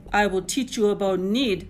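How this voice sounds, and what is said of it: Nasty growling voice. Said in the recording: “Lewis growled out in his nastiest voice.”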